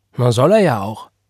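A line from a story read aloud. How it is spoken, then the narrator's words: Called out. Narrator (German): rief sie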